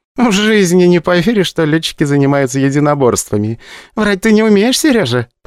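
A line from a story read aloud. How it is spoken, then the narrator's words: Laughing. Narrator (Russian): посмеялась Вера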